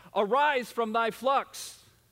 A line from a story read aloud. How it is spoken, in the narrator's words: someone scare you from behind, yelling out